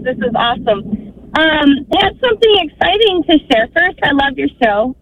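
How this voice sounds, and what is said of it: Happy, excited voice. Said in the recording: “you sound happy”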